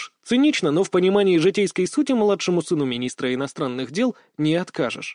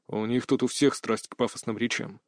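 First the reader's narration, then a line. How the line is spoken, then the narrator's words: Quiet remark. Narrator (Russian): так же тихо заметил Арс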